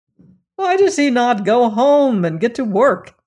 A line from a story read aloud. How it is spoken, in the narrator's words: they cried